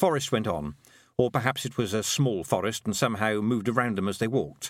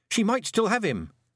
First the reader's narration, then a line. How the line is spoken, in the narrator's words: said Tiffany, gripping the panhandle nervously